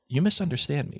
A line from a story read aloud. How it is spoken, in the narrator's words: said Dumbledore, still in the same calm tone